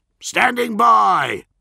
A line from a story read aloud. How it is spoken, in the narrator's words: Bronzy snapped